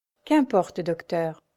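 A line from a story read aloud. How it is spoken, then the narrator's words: Sighing. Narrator (French): soupira Diane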